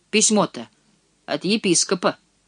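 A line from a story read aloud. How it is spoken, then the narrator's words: Snapping. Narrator (Russian): огрызнулась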